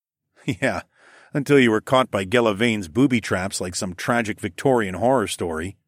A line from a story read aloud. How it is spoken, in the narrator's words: snorted